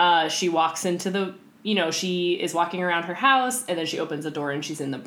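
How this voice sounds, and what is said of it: Usual voice. Nothing is said of it.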